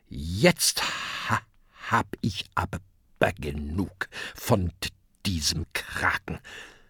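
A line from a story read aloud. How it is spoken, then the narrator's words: Grim murmur. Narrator (German): Grimmig murmelt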